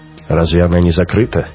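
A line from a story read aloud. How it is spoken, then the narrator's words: Snorting. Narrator (Russian): Раухер хмыкнул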